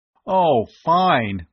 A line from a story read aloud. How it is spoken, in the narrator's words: Bud groaned